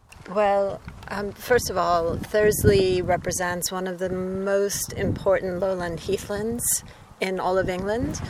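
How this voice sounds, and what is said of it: Non-local foreign accent. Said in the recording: “You could probably hear from my accent, I come from other lands”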